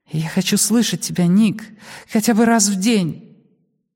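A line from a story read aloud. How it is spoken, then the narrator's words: Exhaled through gritted teeth. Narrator (Russian): скрежещу зубами, и выдохнул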